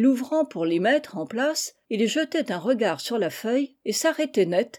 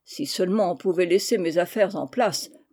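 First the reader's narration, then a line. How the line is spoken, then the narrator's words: Grumbling. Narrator (French): grognait-il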